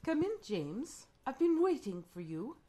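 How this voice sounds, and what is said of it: Put-on British accent. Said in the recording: “British.”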